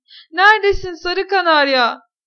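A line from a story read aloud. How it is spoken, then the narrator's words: Shouted again. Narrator (Turkish): diye yine bağırdı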